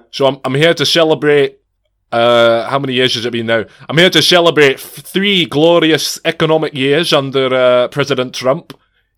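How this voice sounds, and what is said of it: Generic put-on Scottish accent. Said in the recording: “sound less and less like Sean Connery every time... a much more generic Scottish accent”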